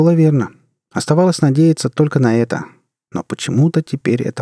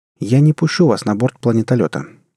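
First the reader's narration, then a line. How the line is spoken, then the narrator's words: Sudden firm calm tone. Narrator (Russian): вдруг решительным, но спокойным тоном сказал Джек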